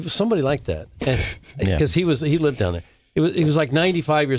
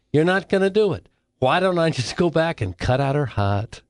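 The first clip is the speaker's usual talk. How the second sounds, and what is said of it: Thick New York accent. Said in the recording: “He speaks to me in this thick New York accent.”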